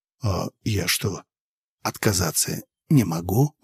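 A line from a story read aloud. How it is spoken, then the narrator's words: Indignant whisper. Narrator (Russian): возмутился я шепотом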